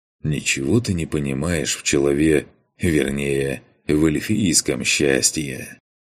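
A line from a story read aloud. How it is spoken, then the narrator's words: Smiling, through clenched teeth. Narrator (Russian): улыбнулся Макс, сквозь зубы выдыхая ароматный яблочный дым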